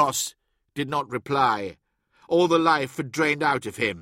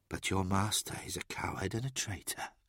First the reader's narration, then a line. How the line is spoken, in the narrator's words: murmured